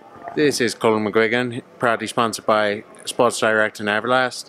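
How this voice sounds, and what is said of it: Poor imitation of another's accent. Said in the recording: “You were going to attempt to do my accent there ... That's horrendous. That's like a mix of Brian Peters and my accent.”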